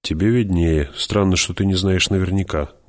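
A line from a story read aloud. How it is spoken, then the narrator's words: Gruff mutter. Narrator (Russian): буркнул герцог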